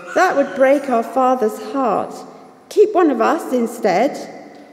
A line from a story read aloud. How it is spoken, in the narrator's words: begged the brothers